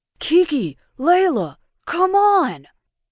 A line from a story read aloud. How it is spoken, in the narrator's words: Will screamed